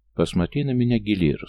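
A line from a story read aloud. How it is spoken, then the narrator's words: Calm, as to child. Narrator (Russian): спокойно, как с ребенком, заговорил он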